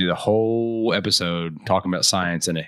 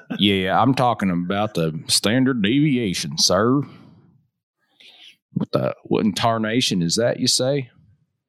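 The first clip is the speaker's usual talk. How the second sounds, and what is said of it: Put-on hick country accent. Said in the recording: “in a hick redneck country accent.”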